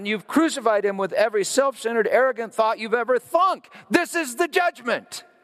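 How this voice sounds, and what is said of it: Yelling. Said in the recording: “I'm yelling.”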